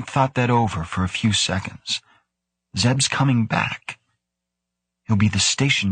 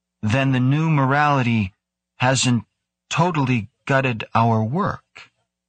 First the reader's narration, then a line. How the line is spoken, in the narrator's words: He said slowly